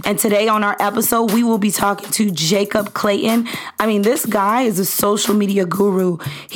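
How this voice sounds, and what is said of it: Sick, under-the-weather voice. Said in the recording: “my voice sounds a little crazy this morning. I'm a little under the weather”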